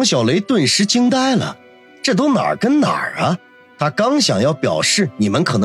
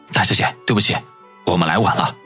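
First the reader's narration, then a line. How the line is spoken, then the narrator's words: Deep, respectful voice. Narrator (Chinese): 马尾青年沉声地说道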